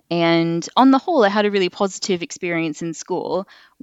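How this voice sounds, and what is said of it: Canadian accent. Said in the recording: “I've got a bit of an accent. So I moved over to England from Canada”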